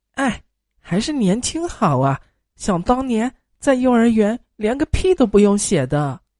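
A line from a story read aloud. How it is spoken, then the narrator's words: Wistful sighing. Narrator (Chinese): 两个人在那感叹说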